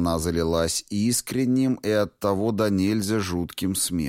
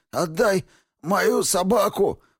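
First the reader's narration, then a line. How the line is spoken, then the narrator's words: Hoarse wheeze through coughing. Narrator (Russian): прохрипел он сквозь кашель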